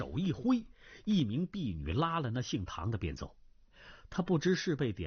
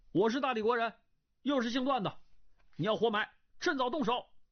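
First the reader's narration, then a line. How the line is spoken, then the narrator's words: Loud. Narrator (Chinese): 大声道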